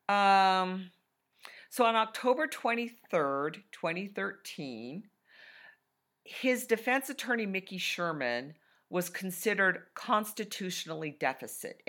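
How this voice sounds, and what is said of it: Froggy, hoarse voice. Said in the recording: “My voice is froggy.”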